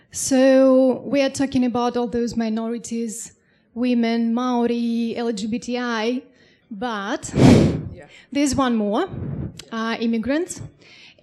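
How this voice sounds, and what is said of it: Non-native English accent. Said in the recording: “You can tell by my accent I'm an immigrant.”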